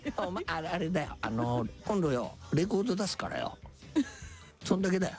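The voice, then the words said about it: Imitates another person's voice. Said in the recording (Japanese): “モノマネ。... モノマネです。... 金ちゃんの。... モノマネなんで”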